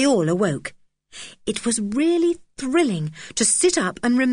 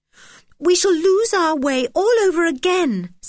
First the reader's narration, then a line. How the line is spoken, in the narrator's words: said George desperately